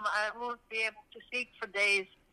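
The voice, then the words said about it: Numb-mouthed, impaired speech. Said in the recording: “I'm so numb. ... You hear me? I sound like an idiot. ... Yeah, you do.”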